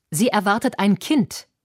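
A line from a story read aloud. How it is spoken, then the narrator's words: Plain. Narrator (German): sagte Theodor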